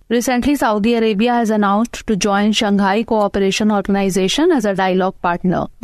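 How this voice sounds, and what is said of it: Speaks with a thick accent. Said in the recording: “she's got that thick accent”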